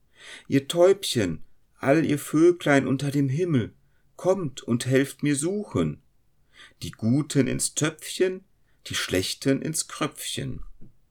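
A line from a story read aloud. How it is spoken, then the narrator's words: Girl calling out. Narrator (German): rief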